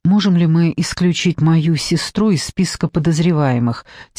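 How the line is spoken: Quiet question. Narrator (Russian): тихо спросил

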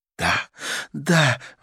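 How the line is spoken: Exclaiming. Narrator (Russian): воскликнула Карла

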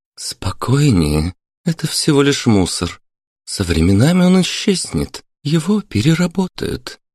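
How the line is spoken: Soft gentle speech. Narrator (Russian): мягко сказала Марина

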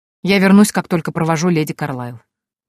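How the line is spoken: Cold reply. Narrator (Russian): холодно ответил он

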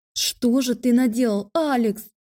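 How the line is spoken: Anguished unrecognizable screaming. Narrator (Russian): корчился в немыслимых муках и вопил не своим голосом

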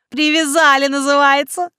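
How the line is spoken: Laughing loudly. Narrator (Russian): хохотала Валиса

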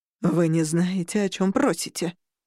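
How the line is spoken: Growled. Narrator (Russian): прорычала Ханум

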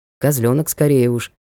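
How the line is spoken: Regretful mutter. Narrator (Russian): пробормотал Ник с сожалением

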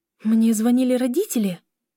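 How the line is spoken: Agitated question. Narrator (Russian): Взволнованно спросила Лиля

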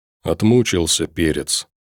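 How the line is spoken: Quiet. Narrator (Russian): тихо сказал Макс

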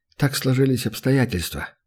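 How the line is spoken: Sigh. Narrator (Russian): вздохнул Лекс

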